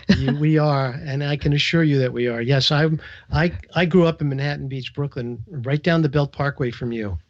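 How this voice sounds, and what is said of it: New York accent. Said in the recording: “I'm hearing as you're speaking, an accent that is home to me. I'm from Long Island, New York ... you sound like a brother from the same place ... It's such a great accent.”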